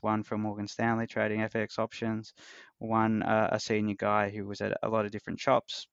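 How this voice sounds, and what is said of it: Australian accent. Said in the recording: “I love your accent, by the way. ... I don't know too many people from Australia ... It's it's very easy to listen to for sure.”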